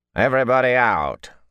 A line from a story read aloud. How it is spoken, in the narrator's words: a tall, lean man barked at last in the sharp accents of Dalinshar